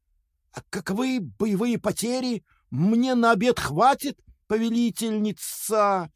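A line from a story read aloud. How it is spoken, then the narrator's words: Spider's predatory hiss. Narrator (Russian): плотоядно процедил паук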